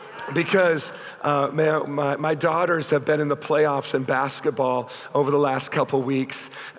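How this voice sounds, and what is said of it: Hoarse, strained voice. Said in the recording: “If I sound like I'm losing my voice, I just want to assure you I am.”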